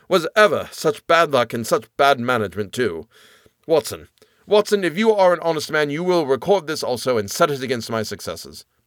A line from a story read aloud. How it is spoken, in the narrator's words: said Holmes bitterly as he emerged panting and white with vexation